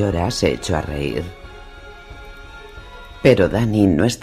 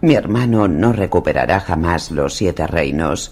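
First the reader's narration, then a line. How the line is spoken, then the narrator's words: Plain. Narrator (Spanish): dijo Dany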